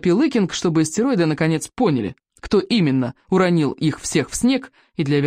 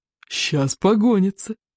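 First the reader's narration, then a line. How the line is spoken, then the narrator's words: Declaring, sobbing with laughter. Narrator (Russian): заявил одноглаз, рыдая от смеха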